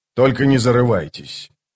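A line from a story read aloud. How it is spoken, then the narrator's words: Dry. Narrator (Russian): сухо добавил Скворец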